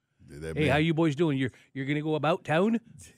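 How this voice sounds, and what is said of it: Put-on Canadian accent. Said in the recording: “that whole Canadian accent”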